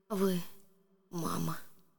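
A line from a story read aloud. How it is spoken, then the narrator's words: Whisper. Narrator (Russian): Она прошептала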